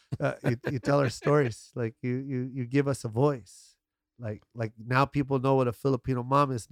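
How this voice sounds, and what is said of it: Put-on cholo-style accent. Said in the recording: “I don't know why I'm sounding like a cholo.”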